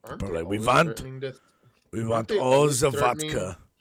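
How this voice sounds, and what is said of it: Poor put-on Russian accent. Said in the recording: “It's terrible Russian accent.”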